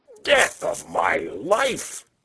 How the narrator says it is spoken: he cried

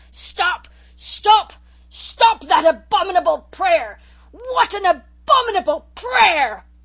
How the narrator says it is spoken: With a positive roar he shouted in tones of thunder

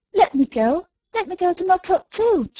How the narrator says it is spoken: she cried

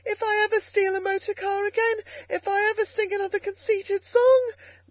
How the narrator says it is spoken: came up breathless and spluttering

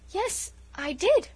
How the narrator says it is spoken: faltered Felicity, beginning to look scared

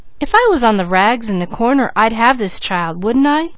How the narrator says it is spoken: scoffed Peaches

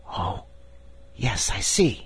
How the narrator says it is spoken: whispered Diamond

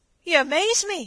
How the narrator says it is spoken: he gasped

